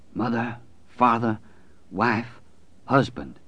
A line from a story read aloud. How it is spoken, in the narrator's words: Mother Abigail whispered